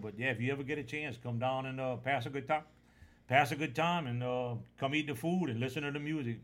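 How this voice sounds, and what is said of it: Slight regional accent. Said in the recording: “I hope y'all understood what I was talking about most of the time. I got a little accent.”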